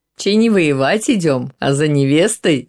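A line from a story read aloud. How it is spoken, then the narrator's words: Laughing. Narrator (Russian): засмеялся Владимир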